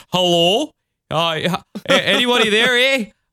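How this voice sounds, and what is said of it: Put-on Canadian accent. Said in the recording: “his accent is Canadian ... the most Midwestern Canadian, like, hello I've ever heard”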